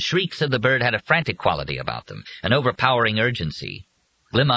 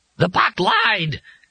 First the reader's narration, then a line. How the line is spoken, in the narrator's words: Glimmung shrieked